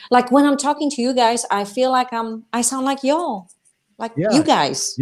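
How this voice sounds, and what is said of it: Polish-accented English. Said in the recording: “your Polish English... I hate my accent... remember your accent is endearing”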